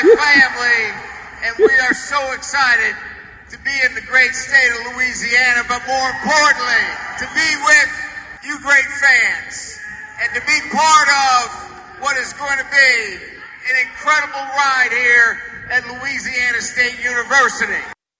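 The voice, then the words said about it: Put-on southern accent. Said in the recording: “There was a southern accent. There was a southern accent from Chip Kelly. He didn't do it on every word, though ... especially family, he puts on the southern charm”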